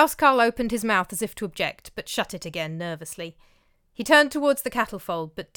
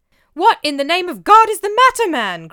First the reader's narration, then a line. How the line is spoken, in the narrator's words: cried Olaf